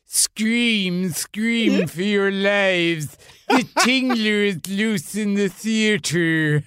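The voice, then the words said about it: Vincent Price impression. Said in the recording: “Vincent Price goes ... A great impression, man. That's really good. ... I didn't know you did voices”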